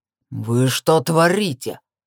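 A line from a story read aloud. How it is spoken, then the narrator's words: Growl. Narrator (Russian): Рыкнул он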